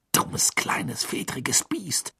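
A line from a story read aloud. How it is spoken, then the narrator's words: Hissed. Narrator (German): zischte Ron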